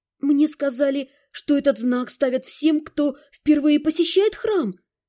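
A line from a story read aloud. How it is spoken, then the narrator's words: Whispered reply. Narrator (Russian): Тем же шепотом откликнулась я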